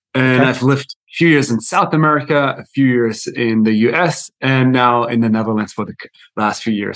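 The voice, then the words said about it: Mixed German-based accent. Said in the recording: “my accent is a little bit all over because I'm German actually myself ... So it's a little bit messed up.”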